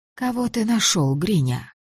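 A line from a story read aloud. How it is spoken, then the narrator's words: Soft question. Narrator (Russian): спросила она мягко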